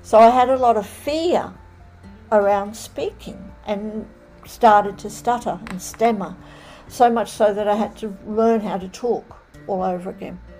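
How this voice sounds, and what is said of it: Australian accent. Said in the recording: “you're calling in from Australia and you have a lovely accent”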